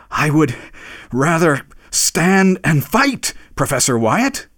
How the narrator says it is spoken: he panted as he said it

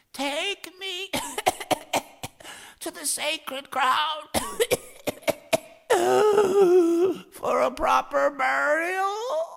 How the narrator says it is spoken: Ossein fairly croaked

